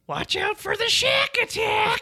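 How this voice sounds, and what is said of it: Imitates Marge Simpson's voice. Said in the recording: “I like doing Marge impressions, though. They're fun. ... My favorite one is”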